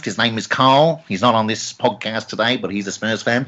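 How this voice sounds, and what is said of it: Bad impression of a co-host. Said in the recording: “Bad impression of Carl there. Apologies, Carl.”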